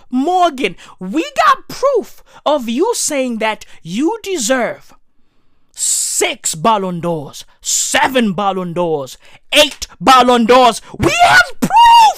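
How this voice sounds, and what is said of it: Angry shouting, straining voice. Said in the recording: “This motherfucker's gonna make me lose my voice. ... Cristiano Ronaldo is legit gonna make me lose my fucking voice.”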